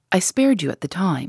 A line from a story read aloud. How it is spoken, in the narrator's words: she said